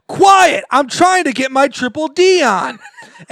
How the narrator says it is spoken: you just yell

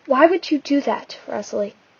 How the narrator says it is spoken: Rosemary cried

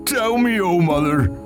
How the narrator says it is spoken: he cried in ending, and his voice sounded like the wail of the wind on stormy nights

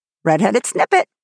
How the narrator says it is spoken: croaked Ginger mockingly

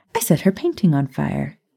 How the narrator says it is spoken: Maya replied sweetly

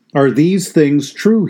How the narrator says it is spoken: he said

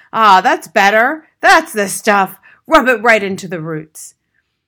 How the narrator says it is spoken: loud masculine grunts and heavy breathing and gasps of

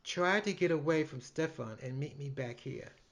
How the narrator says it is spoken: whispered in my ear

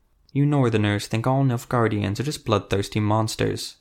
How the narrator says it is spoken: Ezra whispered

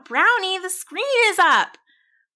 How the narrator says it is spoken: I called out

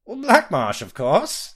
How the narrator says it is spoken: the tiny fellow giggled

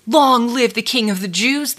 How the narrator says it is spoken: they sneered

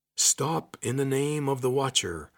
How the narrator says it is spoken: a deep voice boomed out

